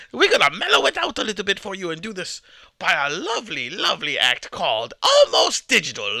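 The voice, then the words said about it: Irish accent. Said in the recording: “such a beautiful Irish accent.”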